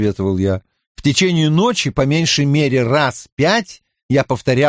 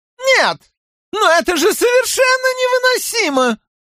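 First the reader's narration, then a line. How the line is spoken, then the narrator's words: Squeaky. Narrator (Russian): пропищал Хоран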